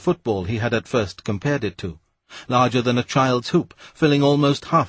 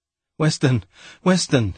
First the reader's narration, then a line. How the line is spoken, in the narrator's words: gasped